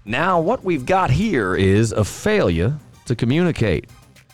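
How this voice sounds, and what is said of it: Attempted Southern American accent. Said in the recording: “your attempt at a Southern accent there”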